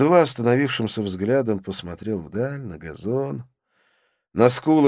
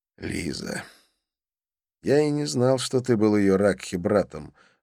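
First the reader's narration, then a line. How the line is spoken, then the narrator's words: Sighing. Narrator (Russian): вздохнул я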